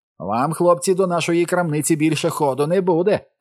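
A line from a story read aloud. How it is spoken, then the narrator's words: Shouted after, shopkeeper. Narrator (Ukrainian): крикнув йому вслід продавець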